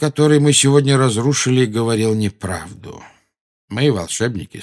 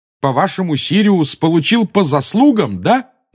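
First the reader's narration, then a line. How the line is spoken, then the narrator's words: Yelled. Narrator (Russian): завопил Гарри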